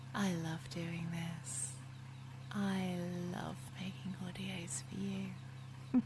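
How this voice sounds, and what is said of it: Soft voice with English accent. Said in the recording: “My soft voice, my English accent, my breaths”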